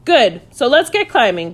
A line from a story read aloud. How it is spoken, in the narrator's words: declared Magic happily